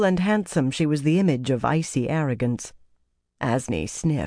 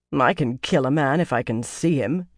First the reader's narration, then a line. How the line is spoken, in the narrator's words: Chesmal said scornfully